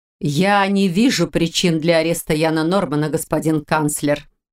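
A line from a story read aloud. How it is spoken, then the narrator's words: Cold reply, woman. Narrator (Russian): холодно отозвалась старший легионер столицы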